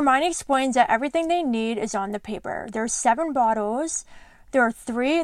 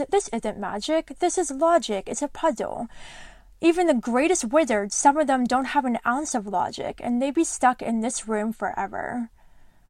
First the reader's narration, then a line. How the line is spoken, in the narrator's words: She sighs and smiles and says